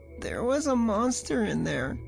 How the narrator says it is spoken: he whimpered, but the fear was subsiding

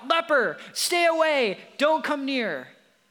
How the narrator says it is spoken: the law requires those 10 men who had leprosy to shout out

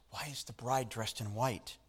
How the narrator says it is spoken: a little girl whispered

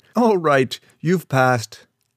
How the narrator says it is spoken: The sergeant laughed and said

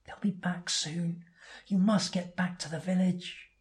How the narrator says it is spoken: Edas whispers

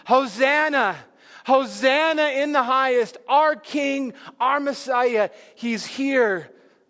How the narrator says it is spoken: the Jews, they're screaming

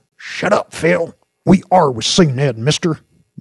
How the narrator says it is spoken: barked Jinx

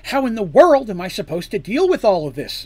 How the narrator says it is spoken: exclaimed Artemis

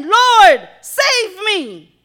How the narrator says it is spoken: he cried out, saying

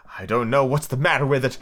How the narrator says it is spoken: the Queen said in a melancholy voice

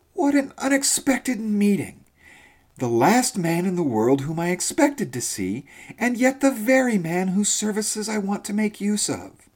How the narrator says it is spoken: exclaimed in great astonishment

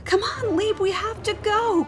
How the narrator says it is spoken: cried Pig

